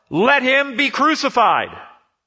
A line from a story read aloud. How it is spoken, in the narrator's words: they shouted all the more